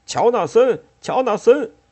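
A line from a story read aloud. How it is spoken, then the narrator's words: Shouting through cupped hands. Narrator (Chinese): 汤姆用双手拢在嘴边，又喊道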